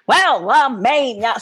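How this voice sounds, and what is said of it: Belted imitation of a Broadway singer. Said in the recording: “sing it like Ethel Merman ... my best Ethel Merman impersonation”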